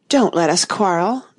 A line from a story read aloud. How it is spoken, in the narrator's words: the White Queen said in an anxious tone